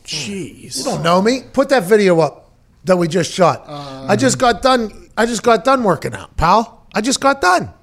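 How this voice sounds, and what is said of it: Pittsburgh Yinzer accent. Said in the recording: “Is your Yinzer accent? You accentuate it for the air at times, right? ... a nice hard like Yinzer line ... Pittsburghese the best accent. Yinzer accent is the best accent out there”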